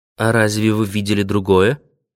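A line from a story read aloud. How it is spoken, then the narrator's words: Dry question. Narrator (Russian): спросила она сухо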